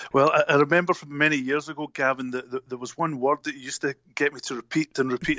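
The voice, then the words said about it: Scottish accent. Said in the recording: “you have the best accent. I think everybody loves the Scottish accent.”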